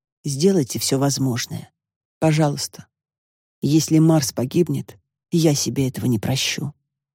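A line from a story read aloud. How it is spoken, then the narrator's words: Firm. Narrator (Russian): Хозяин кота твердо сказал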